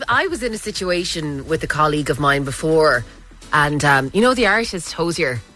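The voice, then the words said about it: Irish Kerry accent. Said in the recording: “I'm from Kerry, and that's my Kerry accent”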